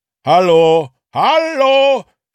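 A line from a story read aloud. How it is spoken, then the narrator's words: Shouting into phone. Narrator (German): schrie Jupp in den Hörer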